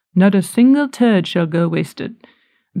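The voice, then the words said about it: Poor put-on British accent. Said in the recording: “like in a British accent or English accent, I'm terrible at accents”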